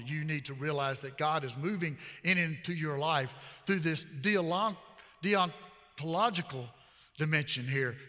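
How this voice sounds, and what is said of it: Southern American accent. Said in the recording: “with this old uh, southern accent”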